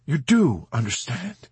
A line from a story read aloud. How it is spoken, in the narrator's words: he exclaimed, wringing his hands together ecstatically